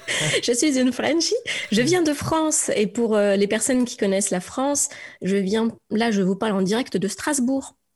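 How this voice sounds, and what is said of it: French-from-France accent. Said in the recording (French): “je reconnais son accent, je vois bien qu'elle n'est pas du Québec... vous entendez bien mon accent franglais là”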